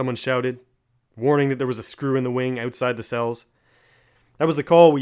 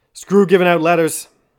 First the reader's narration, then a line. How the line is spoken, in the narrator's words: I yelled in Gaelic at the top of my voice